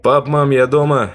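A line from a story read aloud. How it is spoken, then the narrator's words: Shout. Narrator (Russian): крикнул я вглубь квартиры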